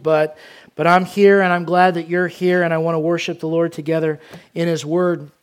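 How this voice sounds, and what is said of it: Weak voice, recovering from cold. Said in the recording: “My voice is a little weak, recovering from some sickness and cold”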